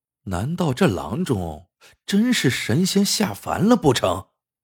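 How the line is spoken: Inner muttering. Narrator (Chinese): 陈七心里嘀咕

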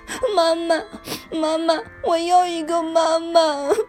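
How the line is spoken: Heartbroken crying child. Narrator (Chinese): 秋秋伤心极了，她开始哭起来

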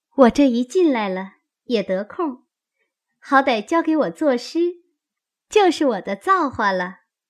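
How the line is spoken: Sly laugh. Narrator (Chinese): 香菱阴笑道

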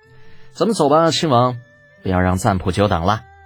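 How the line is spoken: Sighing. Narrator (Chinese): 李浩叹了口气，道

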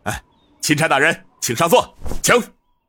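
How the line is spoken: Hurried. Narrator (Chinese): 刘督军急忙道

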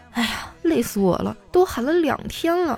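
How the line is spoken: Quiet voice. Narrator (Chinese): 他小声的说

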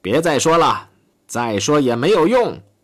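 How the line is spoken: Involuntary exclamation. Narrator (Chinese): 不禁喊了起来

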